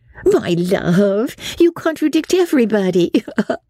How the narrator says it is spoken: said his wife, with her usual laugh

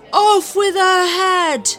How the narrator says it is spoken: yelled the Queen

